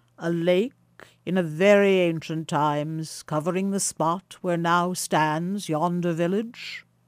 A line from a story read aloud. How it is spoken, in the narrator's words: asked the stranger, in a remarkably deep tone of voice